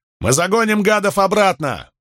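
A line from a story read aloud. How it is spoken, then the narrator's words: Roaring in Gaulish. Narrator (Russian): Крикс проревел что-то по-гальски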